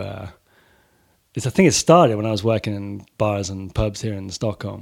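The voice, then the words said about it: Mixed Swedish, American, Welsh accent. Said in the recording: “I sound like kind of a uh, kind of strange mix of Swedish, American, Welsh ... this kind of like thicker accent started coming on”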